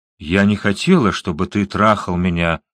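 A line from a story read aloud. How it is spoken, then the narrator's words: Calm. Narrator (Russian): спокойно проговорила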